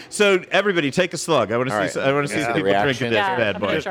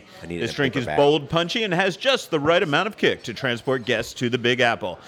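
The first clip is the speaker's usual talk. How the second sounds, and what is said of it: Game show announcer voice. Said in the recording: “That was my, I don't know, my... My game show voice.”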